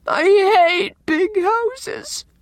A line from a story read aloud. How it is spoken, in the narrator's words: sobbed Anne